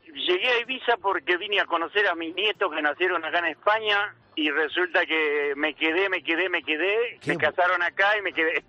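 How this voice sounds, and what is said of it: Non-Spanish, Argentine Spanish accent. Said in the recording (Spanish): “te noto un acento de que no eres español”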